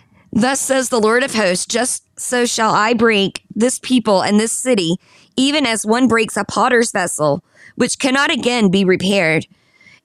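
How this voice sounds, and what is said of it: Southern accent. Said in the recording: “I do have a southern accent.”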